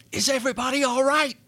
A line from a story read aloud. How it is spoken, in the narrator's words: he yelled above the blustering howl